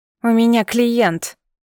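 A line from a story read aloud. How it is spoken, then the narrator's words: Grumbling. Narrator (Russian): проворчала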